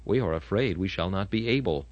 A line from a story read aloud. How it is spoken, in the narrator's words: they whispered among themselves and said